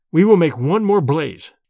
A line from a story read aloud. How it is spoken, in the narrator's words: I said firmly